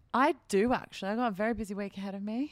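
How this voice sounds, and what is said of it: Put-on British accent. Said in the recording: “why'd you go British again? ... it's pretty good accent”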